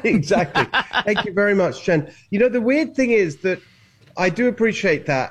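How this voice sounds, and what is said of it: British accent. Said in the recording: “a guy with a British accent”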